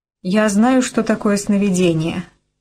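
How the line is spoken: Forced calm, chattering teeth. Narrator (Russian): она пыталась спокойно произносить, но зубы у нее стучали

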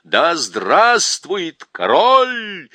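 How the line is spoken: Loud chorus of soldiers. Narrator (Russian): солдаты громко подхватили этот клич

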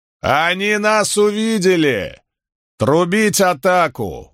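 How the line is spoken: Shouted. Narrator (Russian): выкрикнул Вариний

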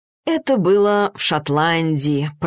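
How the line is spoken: Purring. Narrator (Russian): промурлыкал

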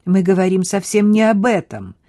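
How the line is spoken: Sharp interruption. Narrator (Russian): резко перебила ее Хлоя

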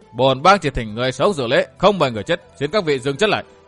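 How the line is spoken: Raised voice. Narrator (Vietnamese): Ký Châu Đại Hiệp cao giọng thốt

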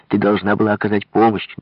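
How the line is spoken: Shouting. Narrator (Russian): Рима кричала

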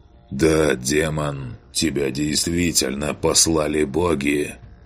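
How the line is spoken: Hoarse voice. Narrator (Russian): Хрипло произнес он

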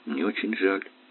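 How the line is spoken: Quiet. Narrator (Russian): тихо сказала она

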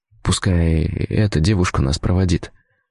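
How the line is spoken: Whisper in ear. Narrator (Russian): шепнул я на ухо Хельге

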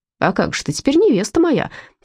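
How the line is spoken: Snorting. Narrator (Russian): тоже фыркнул Мышкин

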